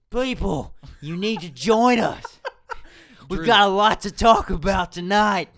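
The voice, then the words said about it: Imitates another person's voice. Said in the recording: “my very poor Rick person impersonation”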